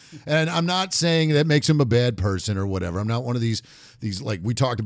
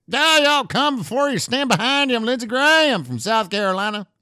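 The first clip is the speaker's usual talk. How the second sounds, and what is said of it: Exaggerated Southern accent. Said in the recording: “everybody who does a talk like this sounds stupid... everybody with a southern accent sounds dumb”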